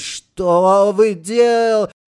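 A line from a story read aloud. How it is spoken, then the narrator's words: Groaning. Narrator (Russian): простонал врач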